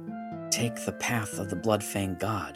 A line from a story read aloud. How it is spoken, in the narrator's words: whispered to herself